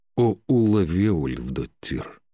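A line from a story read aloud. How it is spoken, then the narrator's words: Drawled. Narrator (Russian): протянул он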